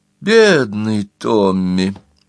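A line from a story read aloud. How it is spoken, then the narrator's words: Laughing. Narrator (Russian): рассмеялась Гретхен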